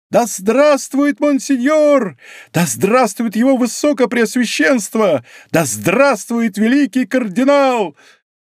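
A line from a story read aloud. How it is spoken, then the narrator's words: Ecstatic full-throated shout. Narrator (Russian): он в восторге закричал во все горло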